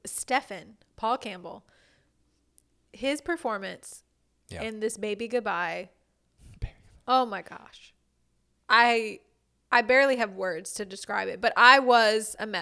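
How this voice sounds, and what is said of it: Choked-up, emotional voice. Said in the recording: “I'm getting choked up already thinking about it.”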